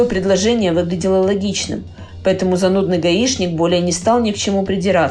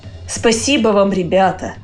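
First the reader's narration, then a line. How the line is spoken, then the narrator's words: Good-natured voice. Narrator (Russian): добродушным голосом молвил Петрович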